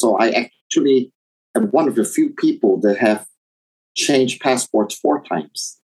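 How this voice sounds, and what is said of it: Hard-to-place accent. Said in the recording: “people ask me where I'm from, and they can't really tell because of my accent.”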